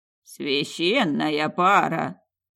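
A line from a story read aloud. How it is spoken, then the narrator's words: Hoarse wheeze. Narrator (Russian): просипел Севрим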